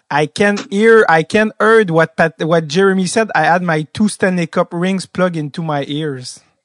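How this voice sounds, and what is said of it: English with Québécois French accent. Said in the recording (French): “avec son bon accent québécois”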